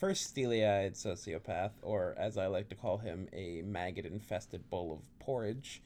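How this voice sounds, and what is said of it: Usual voice. Nothing is said of it.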